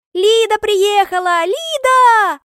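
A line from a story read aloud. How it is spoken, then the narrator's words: Squealing. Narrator (Russian): Визжат они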